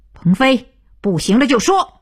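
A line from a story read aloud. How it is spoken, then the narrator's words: Loud. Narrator (Chinese): 徐东福飞转着大声道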